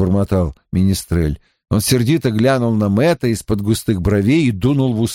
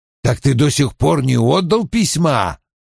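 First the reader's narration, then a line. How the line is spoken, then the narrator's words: Barking. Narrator (Russian): рявкнул Том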